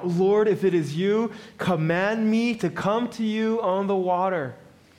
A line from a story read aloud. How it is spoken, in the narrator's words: Peter yells out